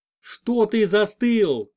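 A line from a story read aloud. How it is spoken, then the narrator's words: Yelling. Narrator (Russian): заорала Клава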